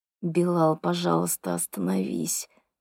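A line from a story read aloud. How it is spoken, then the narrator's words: Quiet plea through clenched teeth. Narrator (Russian): тихо просит Дана сквозь стиснутые зубы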